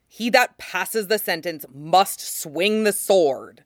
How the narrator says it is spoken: Rob said savagely

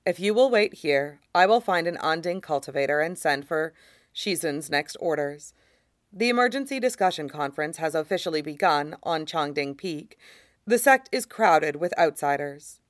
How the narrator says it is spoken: Fu Qiang says softly

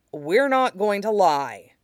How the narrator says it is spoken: Zuko said firmly

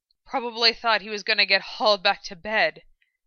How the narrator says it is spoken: Frida pointed out, panting slightly as he tried to keep up with Roy's quick stride

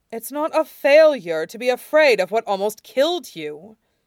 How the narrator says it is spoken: Shirong snarled back

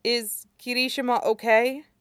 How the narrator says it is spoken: He asked hesitantly

